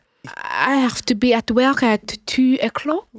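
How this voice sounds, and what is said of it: Put-on French accent. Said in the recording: “Just say it with a French accent”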